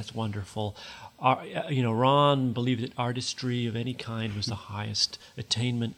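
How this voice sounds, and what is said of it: Put-on American accent. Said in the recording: “that's a great American accent”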